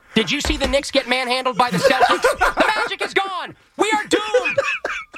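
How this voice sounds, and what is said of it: Yelling, frantic character voice. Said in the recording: “Why can't I stop yelling?”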